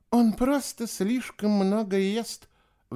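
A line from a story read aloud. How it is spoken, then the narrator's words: Sigh. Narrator (Russian): вздохнула сестра Чемпа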